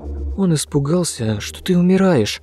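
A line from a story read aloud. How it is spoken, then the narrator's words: Trembling voice. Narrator (Russian): дрожащим голосом пояснил Андрюшка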